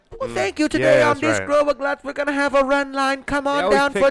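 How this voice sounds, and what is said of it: Imitated accent of Guts co-host. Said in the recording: “she had the accent ... she had an accent”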